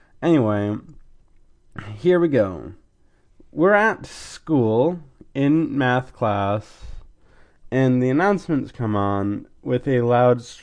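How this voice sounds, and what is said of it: Slightly off, congested-sounding voice. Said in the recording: “if I sound a bit weird, I'm in the middle of a cold ... if it sounds off”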